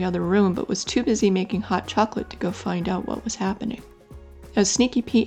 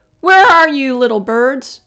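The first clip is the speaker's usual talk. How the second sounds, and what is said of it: Angry voice. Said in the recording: “in an angry voice”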